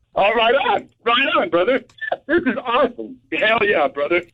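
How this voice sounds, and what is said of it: Hoarse voice, excited yelling. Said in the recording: “I'm getting hoarse because I'm yelling. I'm excited.”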